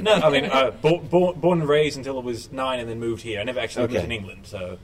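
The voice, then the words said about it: Mixed British-Australian accent. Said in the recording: “I've got a kind of mixed accent, mainly British-Australian”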